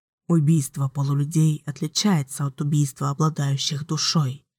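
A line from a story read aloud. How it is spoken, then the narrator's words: Soft. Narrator (Russian): мягко произнес Ричард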